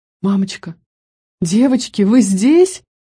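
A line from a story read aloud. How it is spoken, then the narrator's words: Frightened cry nearby. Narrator (Russian): Раздалось испуганно голосом Марлы тоже где-то рядом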